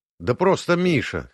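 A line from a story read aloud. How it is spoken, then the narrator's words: Snorting chuckle. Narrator (Russian): хмыкнул я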